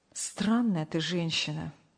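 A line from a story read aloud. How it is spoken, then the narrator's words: Sighing. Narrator (Russian): вздохнул Сергей Павлович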